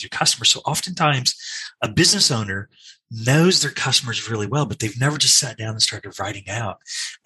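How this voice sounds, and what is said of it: Australian accent. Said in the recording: “you can hear from my accent, I originally come from Australia”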